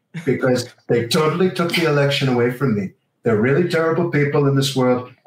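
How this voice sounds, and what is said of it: Imitates another person's voice. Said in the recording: “That is right up there among the best Trump impersonations I've seen”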